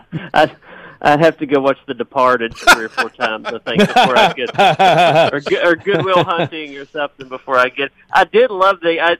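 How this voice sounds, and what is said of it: Strong Southern US accent. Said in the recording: “one of the greatest Southern accents I've ever heard”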